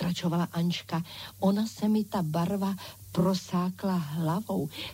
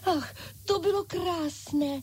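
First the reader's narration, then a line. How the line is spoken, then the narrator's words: Delighted exclamation. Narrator (Czech): vykřikly panenky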